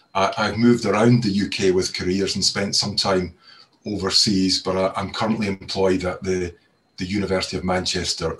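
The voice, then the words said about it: Scottish accent. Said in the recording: “You can probably tell from my accent that I'm originally from Scotland”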